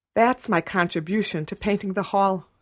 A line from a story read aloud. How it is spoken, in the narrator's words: she gasped